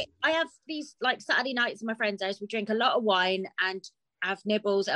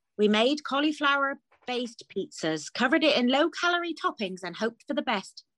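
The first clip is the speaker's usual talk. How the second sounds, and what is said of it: Put-on caramel bunny advert voice. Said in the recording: “My accent for that, I don't know why. I thought I was the caramel bunny”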